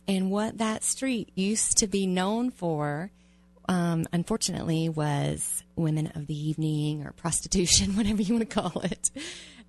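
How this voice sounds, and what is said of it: Southern American accent. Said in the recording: “I can really hear my southern accent”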